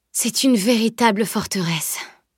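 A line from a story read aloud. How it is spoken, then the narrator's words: Overwhelmed sigh. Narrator (French): soupira Camille accablée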